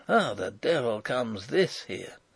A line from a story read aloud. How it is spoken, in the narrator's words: hear him mutter